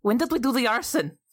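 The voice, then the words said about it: Put-on different accent. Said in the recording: “That was a different accent.”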